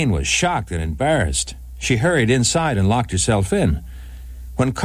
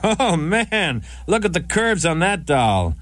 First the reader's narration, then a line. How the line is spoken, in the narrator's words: When he saw Nadine, he shouted out